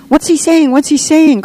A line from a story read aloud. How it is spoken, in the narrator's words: cried the children, almost in unison